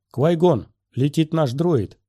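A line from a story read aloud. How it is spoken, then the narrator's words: Shouted. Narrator (Russian): крикнул Оби-Ван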